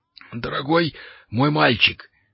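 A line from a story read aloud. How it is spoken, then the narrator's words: Strained, forced out. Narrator (Russian): с трудом выдавил из себя волшебник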